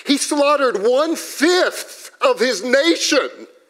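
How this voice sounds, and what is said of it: Raised, loud voice. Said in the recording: “I'm raising my voice.”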